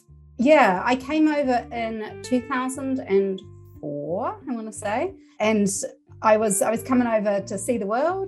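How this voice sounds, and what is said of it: New Zealand accent. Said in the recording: “we're detecting an accent here, and you've already admitted to coming from New Zealand”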